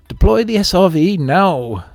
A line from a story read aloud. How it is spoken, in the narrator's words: Flossie shouted over the screech of protesting hull plates